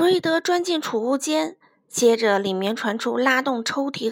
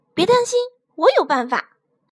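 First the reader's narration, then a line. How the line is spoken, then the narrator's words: Shouting. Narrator (Chinese): 弗瑞德大喊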